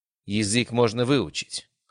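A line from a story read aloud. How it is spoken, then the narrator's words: Cold, young man. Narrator (Russian): холодно ответил молодой наследник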